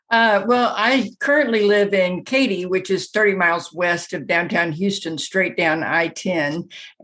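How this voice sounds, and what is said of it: Slight Southern US accent. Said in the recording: “a little bit of a Southern accent.”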